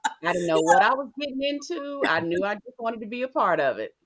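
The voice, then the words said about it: Sweet Southern American accent. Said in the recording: “You had this cutest Southern... this sweet little Southern accent”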